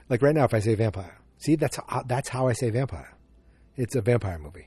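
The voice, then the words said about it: Boston accent, dropped R's. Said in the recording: “I'm in the New England area. I'm in Massachusetts, and I don't have the wicked Boston accent, but I do have it ... I drop my R's all the time”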